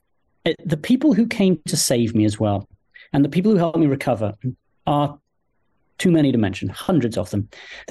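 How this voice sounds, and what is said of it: Noticeable non-American accent. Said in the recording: “despite the accent, I'm an American, a proud American”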